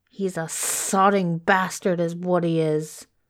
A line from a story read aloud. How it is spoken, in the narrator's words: Crowley snarled